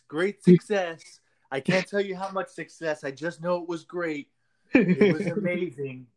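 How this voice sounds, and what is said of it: Imitates another person's voice. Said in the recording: “good Donald Trump impersonation ... He's easy to impersonate”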